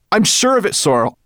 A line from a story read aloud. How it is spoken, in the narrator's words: cried Ben